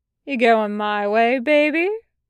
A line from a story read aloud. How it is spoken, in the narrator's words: Tucker drawls